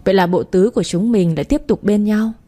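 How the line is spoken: Laughing. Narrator (Vietnamese): Thăng và Minh bật cười

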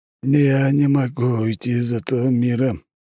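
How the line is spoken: Dejected, despondent. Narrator (Russian): наконец уныло проговорил Нергал-Хаад Артебраевал

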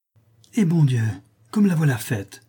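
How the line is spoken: Friend exclaiming. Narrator (French): s'écria son amie

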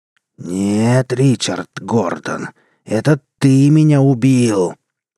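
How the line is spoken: Unwomanly growl. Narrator (Russian): прорычала совсем не по-женски мертвая жена

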